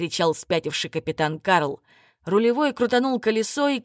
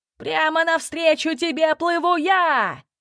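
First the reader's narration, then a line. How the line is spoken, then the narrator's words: Madman shouting. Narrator (Russian): кричал безумный капитан Киту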